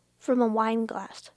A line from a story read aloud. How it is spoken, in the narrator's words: Calonia said